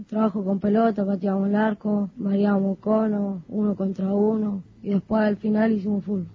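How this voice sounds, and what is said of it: Young child's voice. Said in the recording (Spanish): “La voz de niño todavía”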